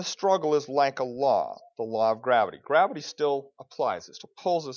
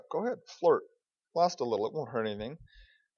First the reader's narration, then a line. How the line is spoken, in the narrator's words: Indwelling sin cries out